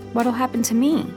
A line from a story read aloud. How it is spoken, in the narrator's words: asked, my voice small and squeaky